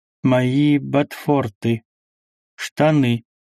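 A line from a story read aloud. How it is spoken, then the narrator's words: Slow, eerie speech. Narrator (Russian): медленно произнес Карл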